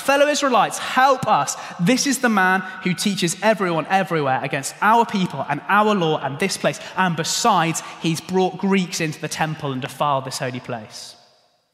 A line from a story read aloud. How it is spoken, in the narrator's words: they shout